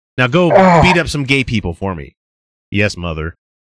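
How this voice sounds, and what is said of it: Imitates another person's voice. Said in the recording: “That's Pence for you. That's my Pence impression.”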